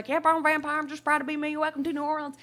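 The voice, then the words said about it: Strong country accent imitation. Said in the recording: “he had the strongest country accent I've ever heard ... Boomhauer from King of the Hill ... he was hard to understand”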